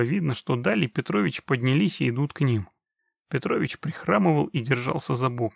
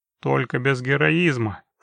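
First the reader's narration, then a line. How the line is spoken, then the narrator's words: Snort. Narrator (Russian): фыркнул Геральт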